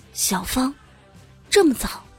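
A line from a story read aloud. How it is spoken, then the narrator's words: Calm, soft. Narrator (Chinese): 我并没有慌张，轻声的对着我妈说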